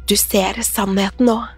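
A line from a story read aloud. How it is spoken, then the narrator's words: Woman hissing. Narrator (Norwegian): hveste kvinnen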